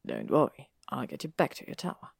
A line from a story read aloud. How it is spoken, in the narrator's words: he murmured